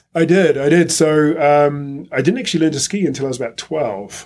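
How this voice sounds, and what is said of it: New Zealand accent. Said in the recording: “why I sound funny and where that accent's from ... I was living in Wellington at the time, which is in the bottom of the North Island of New Zealand”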